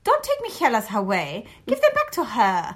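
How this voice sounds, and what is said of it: Child's voice with German accent. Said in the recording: “I say literally like this... Fully German.”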